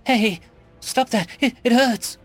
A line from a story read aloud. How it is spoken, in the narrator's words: she cried out